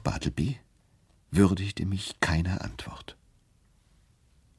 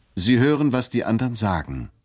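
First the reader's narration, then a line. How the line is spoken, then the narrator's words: Calling out. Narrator (German): rief ich zum Wandschirm gewandt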